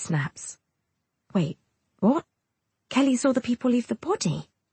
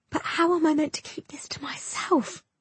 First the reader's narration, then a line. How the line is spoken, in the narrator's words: Kelly whispers